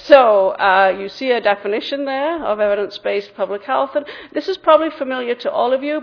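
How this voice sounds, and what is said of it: Mixed English and Massachusetts accent. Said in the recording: “my funny accent ... I grew up in England and then spent 5 years in Massachusetts and then back and forth in the Midwest. So England and Massachusetts are responsible primarily for the way that I talk. Not everybody in Wisconsin sounds like me.”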